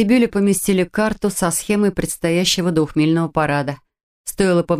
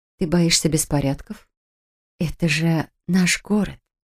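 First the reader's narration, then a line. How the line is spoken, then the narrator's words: Honeyed tone. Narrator (Russian): Елейным тоном произнесла Кэт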